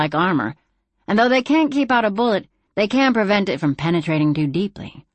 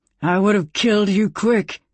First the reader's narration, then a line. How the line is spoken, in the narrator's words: growled